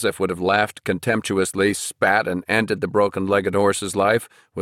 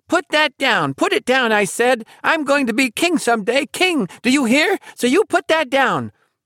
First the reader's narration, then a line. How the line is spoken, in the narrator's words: If Peter had actually said as much, squeaking